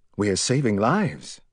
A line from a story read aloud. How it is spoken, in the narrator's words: answered calmly